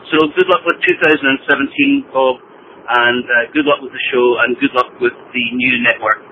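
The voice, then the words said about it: Cool distinctive accent. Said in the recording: “I love your accent, man. I wish I had a cool accent like that.”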